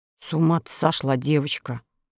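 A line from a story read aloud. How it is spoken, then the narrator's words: Grumbling. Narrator (Russian): проворчал моряк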